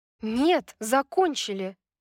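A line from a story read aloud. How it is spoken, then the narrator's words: Angry objection. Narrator (Russian): сердито возразила Брайс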